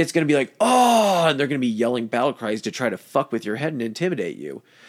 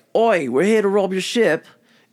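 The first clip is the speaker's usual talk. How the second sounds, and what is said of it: Put-on British accent. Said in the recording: “I'm going to try to do a British accent”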